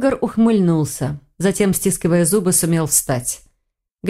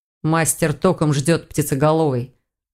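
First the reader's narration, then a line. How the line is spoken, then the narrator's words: Dragon's growl. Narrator (Russian): рыкнул дракон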